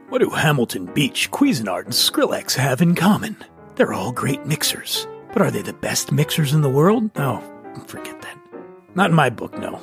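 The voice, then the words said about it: Radio announcer voice. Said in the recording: “I'd like to do this in a radio announcer voice. ... Back to my regular voice.”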